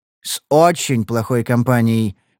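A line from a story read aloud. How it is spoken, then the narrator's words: Grim repetition. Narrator (Russian): мрачно повторил я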